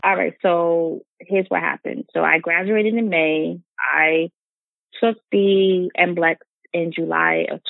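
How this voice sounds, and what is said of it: New York accent. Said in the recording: “this New York girl with this New York accent”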